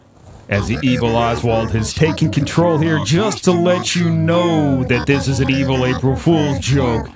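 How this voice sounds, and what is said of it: Evil villain character voice. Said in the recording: “You guys like my evil voice, huh? ... You didn't know Chucky was the PR guy”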